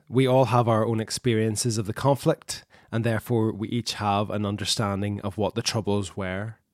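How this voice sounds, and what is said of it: Northern Irish accent. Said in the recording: “you can tell by our accents that all four of us live in Northern Ireland”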